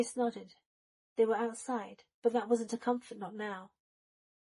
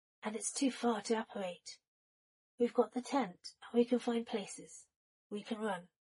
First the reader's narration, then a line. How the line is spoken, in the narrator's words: Remus murmured